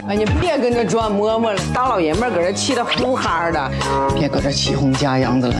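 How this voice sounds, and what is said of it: Convincing Northeastern Chinese accent. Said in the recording (Chinese): “他有一种就是不是东北人胜似东北人的那种劲儿 ... 我觉得他比东北人都东北 ... 加上他的口音，我当时我真没听出来他是个南方人”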